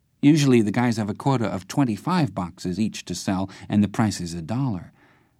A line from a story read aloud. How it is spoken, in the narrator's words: he sighed